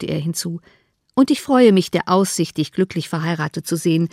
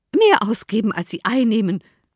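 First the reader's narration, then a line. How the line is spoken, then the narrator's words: Calling out. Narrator (German): rief Mrs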